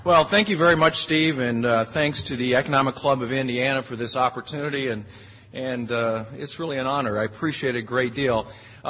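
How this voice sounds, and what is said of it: Harsh, hoarse voice from illness. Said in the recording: “my voice is a little harsh... I seem to have come down with something”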